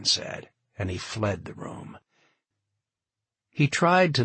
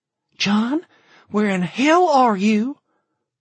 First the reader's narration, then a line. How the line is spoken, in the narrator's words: It was Chen, her voice shrill